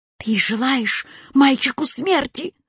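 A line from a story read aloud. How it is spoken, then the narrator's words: Angry hiss, cat. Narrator (Russian): злобно зашипел кот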